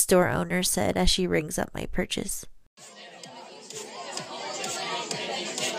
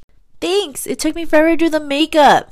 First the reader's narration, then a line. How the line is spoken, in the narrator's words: I yelled over the music